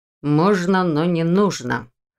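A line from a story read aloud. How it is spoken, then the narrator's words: Snorting remark. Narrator (Russian): хмыкнул Ваня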